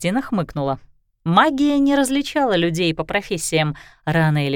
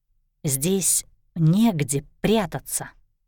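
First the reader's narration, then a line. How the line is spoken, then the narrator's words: Whisper. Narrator (Russian): прошептала Кристина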